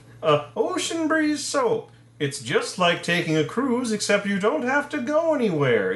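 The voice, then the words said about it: Phony sophisticated New York accent. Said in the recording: “terrible, like, phony... That sophisticated New York accent that is only affected”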